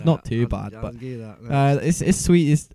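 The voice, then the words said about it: Put-on Scottish accent. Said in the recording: “this is my Scottish accent.”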